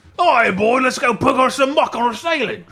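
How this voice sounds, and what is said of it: Imitated British accent. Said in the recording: “his British accent ... impression”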